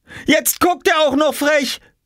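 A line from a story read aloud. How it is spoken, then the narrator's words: Shouting. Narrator (German): schrie Jule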